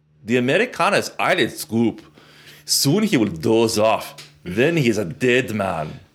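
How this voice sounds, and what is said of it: Bad put-on German accent. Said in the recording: “That's a terrible, terrible, terrible German accent.”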